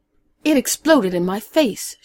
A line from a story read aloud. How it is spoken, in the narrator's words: said angrily